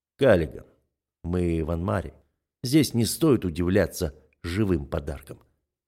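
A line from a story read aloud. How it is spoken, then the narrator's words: Calm, unruffled tone. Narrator (Russian): заявляю я невозмутимым тоном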